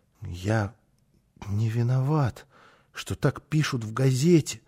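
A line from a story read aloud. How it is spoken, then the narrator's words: Mutter. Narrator (Russian): пробормотал он снова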